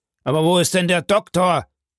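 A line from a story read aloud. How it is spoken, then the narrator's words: Calling out. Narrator (German): rief Villefort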